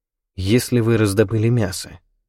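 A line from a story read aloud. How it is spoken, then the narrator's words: Uncertain question. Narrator (Russian): спросил я у Гишипа неуверенно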